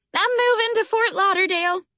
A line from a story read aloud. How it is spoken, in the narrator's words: she squealed